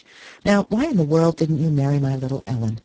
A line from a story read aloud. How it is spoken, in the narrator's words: Archer laughed